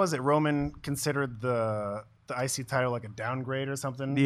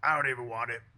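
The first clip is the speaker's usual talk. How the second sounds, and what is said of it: Imitates another person's voice. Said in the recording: “That's my Roman impression.”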